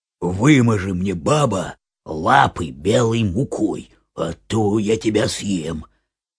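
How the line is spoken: Wolf growling. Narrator (Russian): Волк зарычал на нее

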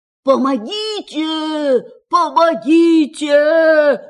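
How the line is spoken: Shouting. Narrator (Russian): закричал он

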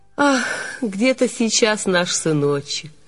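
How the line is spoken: Heavy sigh, mother. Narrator (Russian): Мать тяжело вздохнула

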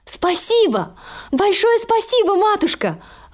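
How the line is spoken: Exclaiming. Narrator (Russian): воскликнула Золушка

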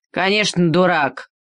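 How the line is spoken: Angry muttering turkey. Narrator (Russian): сказал индейский петух и сердито забормотал

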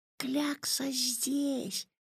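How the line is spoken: Whispering. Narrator (Russian): прошептал Ваня

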